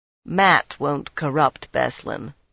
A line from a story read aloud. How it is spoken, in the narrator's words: Birgitta said dryly